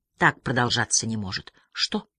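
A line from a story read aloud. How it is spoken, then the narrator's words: Barely audible whisper. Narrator (Russian): Едва слышно прошептала Лотте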